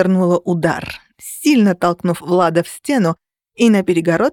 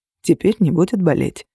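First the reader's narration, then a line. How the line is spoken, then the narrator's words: Quiet. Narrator (Russian): тихо произнес он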